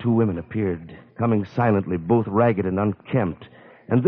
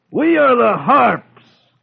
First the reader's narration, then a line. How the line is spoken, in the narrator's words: they shouted